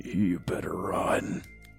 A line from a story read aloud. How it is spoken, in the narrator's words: In a raspy, deep and demonic voice, it said